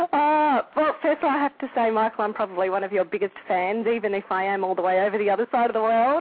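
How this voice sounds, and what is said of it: Australian accent. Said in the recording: “We have a call from Australia ... I love your accent.”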